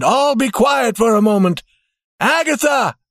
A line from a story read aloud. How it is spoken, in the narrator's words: called as loudly as he could